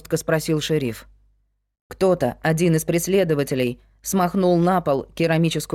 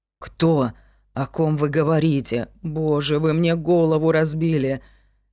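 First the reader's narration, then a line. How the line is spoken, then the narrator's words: Mumbling. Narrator (Russian): мямлила Аделаида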